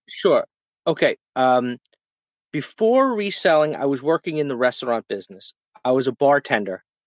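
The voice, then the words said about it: New York accent. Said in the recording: “a typical, what I would call a typical accent of a New Yorker”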